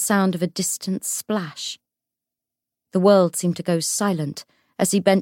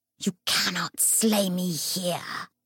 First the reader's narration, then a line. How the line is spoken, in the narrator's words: it snarled